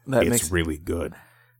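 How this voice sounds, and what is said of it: Gravelly imitation of another person's voice. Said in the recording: “in my Kevin Conroy voice ... Conroy is a lot more gravelly”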